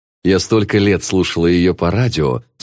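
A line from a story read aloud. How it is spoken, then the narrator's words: Plain. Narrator (Russian): сказала Анна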